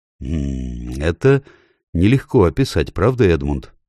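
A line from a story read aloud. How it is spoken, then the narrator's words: Plain. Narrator (Russian): сказал Верховный Король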